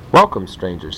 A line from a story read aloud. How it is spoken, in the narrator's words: he said